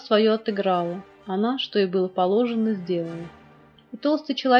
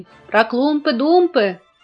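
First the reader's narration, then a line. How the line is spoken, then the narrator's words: Several voices shouting. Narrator (Russian): кричали другие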